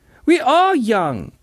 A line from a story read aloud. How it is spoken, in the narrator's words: howled